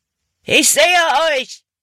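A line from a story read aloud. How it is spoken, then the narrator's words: Called out. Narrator (German): rief Hutton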